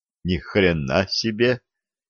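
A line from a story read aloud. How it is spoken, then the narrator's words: Shocked young man muttering. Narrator (Russian): пробормотал потрясенный юноша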